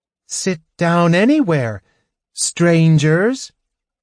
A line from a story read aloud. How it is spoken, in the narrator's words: she said loudly